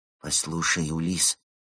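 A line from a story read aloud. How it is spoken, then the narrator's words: Quiet. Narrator (Russian): тихо произнес Евгений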